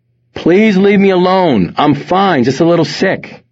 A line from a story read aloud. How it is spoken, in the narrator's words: Wes yelled out, but his voice was barely audible through the pillow pressed tightly against his face